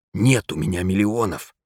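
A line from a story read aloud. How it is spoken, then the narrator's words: Near-whisper confession. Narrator (Russian): тихо, почти шепотом признался Знайка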